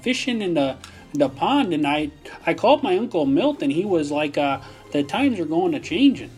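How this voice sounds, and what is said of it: Exaggerated Minnesota accent. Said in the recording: “you don't need to do a Minnesota accent ... I'm doing like the exaggerated, like the Fargo accent”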